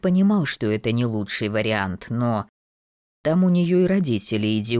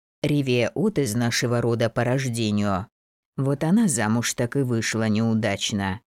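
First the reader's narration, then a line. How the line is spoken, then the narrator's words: Sighing. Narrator (Russian): вздохнул Евгений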